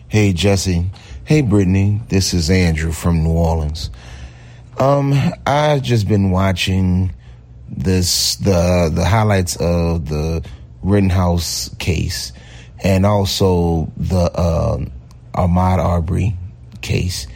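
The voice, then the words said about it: Fantastic voice with regional accent. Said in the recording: “I have voice envy... Fantastic voice... I have accent envy”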